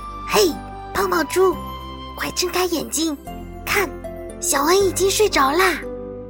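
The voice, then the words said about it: Quiet, hushed whisper. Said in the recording (Chinese): “小声地说”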